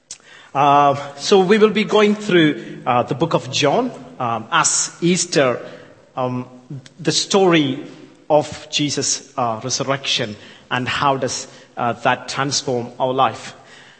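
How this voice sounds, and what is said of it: Indian English mixed with Yorkshire accent. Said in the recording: “I know I'm from India, so my accent is thick Yorkshire with the English Indian mix, spice, you know, it's a very, you know, very mix.”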